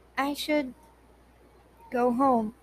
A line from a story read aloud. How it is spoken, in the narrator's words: her voice faltered